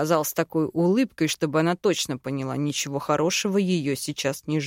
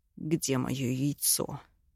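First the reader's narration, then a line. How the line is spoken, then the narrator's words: Hushed hiss. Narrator (Russian): Прошипел ей в лицо так, чтобы нас никто не услышал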